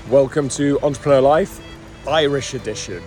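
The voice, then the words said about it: Put-on Irish accent. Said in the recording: “I really shouldn't try and throw on Irish accents.”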